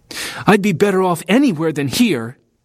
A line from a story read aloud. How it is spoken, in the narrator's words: he snapped